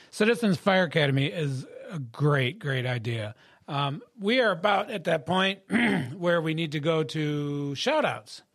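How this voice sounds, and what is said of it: Strained, hoarse voice. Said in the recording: “I'm losing my voice today... give me a chance to get my voice back”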